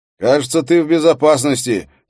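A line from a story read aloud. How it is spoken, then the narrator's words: Shout toward another room. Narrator (Russian): крикнул он в направлении кухни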